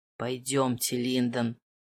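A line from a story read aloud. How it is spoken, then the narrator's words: Through gritted teeth. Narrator (Russian): процедил герцог Веллингтон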